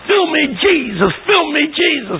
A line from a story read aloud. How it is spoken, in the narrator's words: they get on the yell